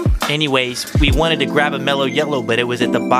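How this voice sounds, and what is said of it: Usual voice. Nothing is said of it.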